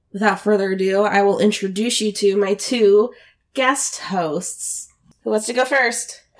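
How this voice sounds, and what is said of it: Sick-sounding voice. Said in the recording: “if you can hear it in my voice, I am sick”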